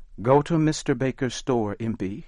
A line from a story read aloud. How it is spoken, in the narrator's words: she said